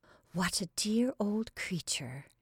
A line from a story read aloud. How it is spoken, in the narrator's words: she murmured